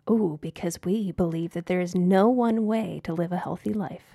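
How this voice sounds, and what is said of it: Announcer-style commercial voice. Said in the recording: “That sounded like such a good announcer voice. ... That's my commercial voice.”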